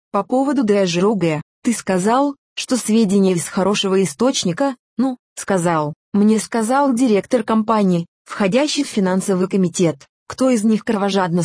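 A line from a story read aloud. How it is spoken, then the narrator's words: Plain. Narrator (Russian): спросил брокер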